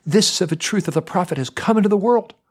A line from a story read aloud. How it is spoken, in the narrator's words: Some of the men cried out